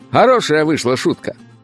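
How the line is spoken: Barked into ear. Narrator (Russian): гаркнул мне в ухо Малдейос

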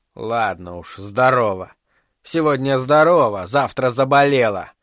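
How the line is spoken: Grumbling. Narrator (Russian): проворчала Дарволия

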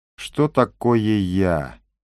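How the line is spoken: Moaning. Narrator (Russian): простонал Кар

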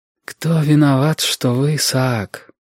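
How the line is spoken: Muffled question. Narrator (Russian): спросила она глухо

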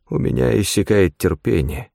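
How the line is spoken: Quiet warning. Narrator (Russian): предупредил он тихо

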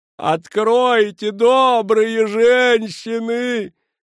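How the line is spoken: Exaggerated sobbing. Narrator (Russian): преувеличенно рыдала Мерицель

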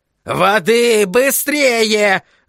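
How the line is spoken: Yelled. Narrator (Russian): заорал Флэк

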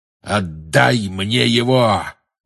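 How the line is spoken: Growl in the ear. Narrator (Russian): прорычал ему в ухо чей-то голос

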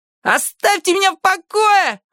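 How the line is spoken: Yelling. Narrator (Russian): орал конфедерат

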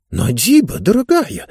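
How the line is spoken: Whisper. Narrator (Russian): зашептал он

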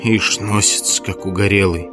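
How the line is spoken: Grumbling. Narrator (Russian): ворчала голова Тома

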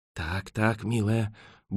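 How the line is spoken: Muttering. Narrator (Russian): бормотал он

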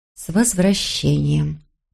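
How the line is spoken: Muttered. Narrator (Russian): пробормотала она

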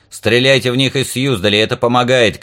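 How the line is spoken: Shouted. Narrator (Russian): крикнул я

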